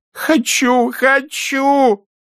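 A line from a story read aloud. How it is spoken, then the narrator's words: Shouting, nearly sobbing. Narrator (Russian): чуть ли не рыдая, закричал Шевчук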